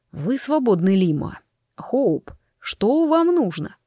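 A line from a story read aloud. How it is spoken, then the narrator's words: Through teeth. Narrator (Russian): процедил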